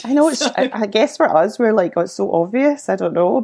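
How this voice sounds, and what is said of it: Scottish accent. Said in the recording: “I think it's pretty obvious, the Scottish accent.”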